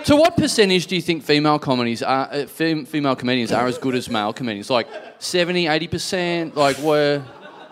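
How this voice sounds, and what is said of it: Imitates an interviewer's voice. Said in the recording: “doing an impression of the interview”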